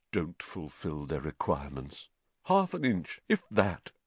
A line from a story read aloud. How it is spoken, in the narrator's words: Nearly headless Nick, the ghost of Gryffindor Tower, morosely, muttering under his breath